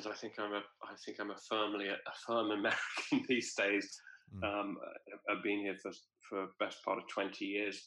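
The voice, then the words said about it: Speaks with a non-American accent. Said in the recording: “despite my accent,”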